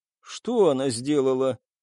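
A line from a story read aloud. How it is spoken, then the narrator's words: Sad question, giraffe. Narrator (Russian): печально спросила жирафа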